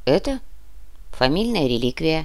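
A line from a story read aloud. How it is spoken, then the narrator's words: Calm reply. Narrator (Russian): спокойно ответил Плотников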